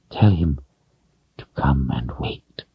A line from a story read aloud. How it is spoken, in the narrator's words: Rahl said, unable to manage more than a whisper